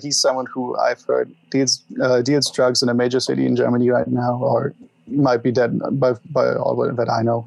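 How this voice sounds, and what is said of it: German-influenced English accent. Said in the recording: “my mother was German. This probably also answered a few questions about my accent.”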